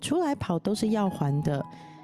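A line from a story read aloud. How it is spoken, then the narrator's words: Joking. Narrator (Chinese): 那老师常常开玩笑讲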